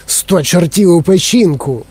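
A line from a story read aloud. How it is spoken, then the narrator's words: Exclaimed. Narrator (Ukrainian): вигукнув пан Тіві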